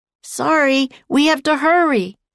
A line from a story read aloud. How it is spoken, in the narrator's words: Jack yelled